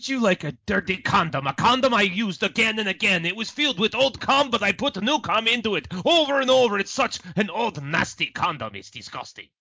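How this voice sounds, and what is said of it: Deliberately bad put-on accent. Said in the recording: “Count Crazy Craig there? ... I talk like that, and I'm trying to imitate a bad, bad accent like Petrock the Lieber”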